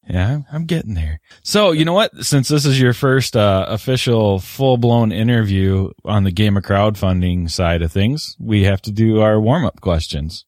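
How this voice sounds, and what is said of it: Deep radio voice, slightly deeper. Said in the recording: “you have that movie guy intro voice and then you have just that nice, nice radio voice ... It's a little bit deeper right now because I'm still getting over being sick”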